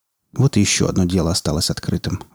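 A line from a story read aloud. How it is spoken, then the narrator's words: Sigh. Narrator (Russian): вздохнул он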